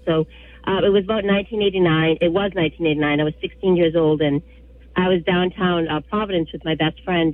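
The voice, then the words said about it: Rough, sick-sounding voice. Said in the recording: “excuse my voice. I'm just getting over a cold.”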